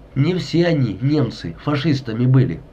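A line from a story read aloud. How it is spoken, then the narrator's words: Plain. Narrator (Russian): сказала хозяйка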